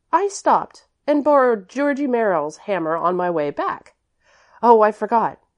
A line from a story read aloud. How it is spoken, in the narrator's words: continued Priscilla hastily